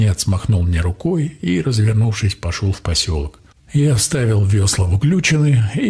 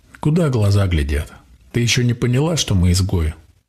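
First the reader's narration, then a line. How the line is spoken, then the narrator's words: Snort. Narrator (Russian): Хмыкнул я в ответ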